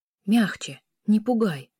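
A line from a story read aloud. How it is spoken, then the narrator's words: Whisper. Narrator (Russian): прошептала брату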